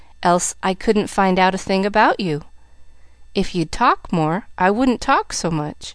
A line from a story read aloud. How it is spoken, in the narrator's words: retorted Pollyanna calmly